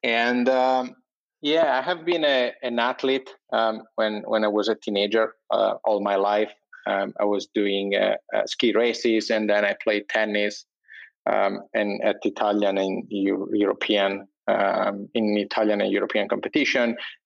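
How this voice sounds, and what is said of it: Italian accent in English. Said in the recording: “I'm Italian, as you probably can guess from my funny accent.”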